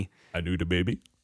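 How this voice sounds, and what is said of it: Imitates another person's voice. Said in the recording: “my Eddie Murphy impression”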